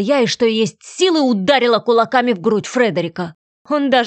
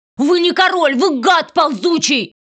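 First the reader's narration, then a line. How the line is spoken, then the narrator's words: Shout. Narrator (Russian): крикнула я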